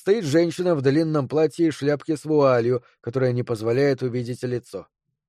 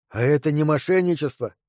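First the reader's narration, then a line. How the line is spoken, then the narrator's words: Breathless. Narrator (Russian): выдохнул Кевин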